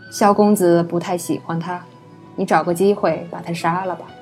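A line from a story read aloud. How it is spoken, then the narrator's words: Calm, indifferent. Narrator (Chinese): 淡淡道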